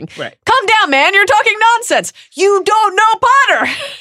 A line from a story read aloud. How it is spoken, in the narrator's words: shrieked Snape